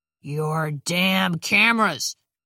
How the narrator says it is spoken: Thompson growled

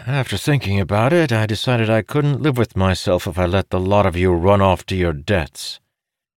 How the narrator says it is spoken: Amandal said with a sigh

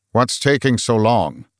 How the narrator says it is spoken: Arthur's booming voice

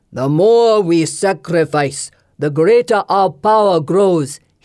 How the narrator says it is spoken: he thunders

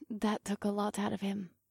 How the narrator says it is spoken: Kaas whispered

